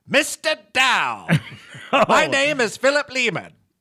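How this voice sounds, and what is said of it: Put-on Mid-Atlantic accent. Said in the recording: “I have to do the Mid-Atlantic accent.”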